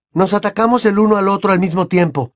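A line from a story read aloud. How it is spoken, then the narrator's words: Shouted. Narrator (Spanish): gritó Harry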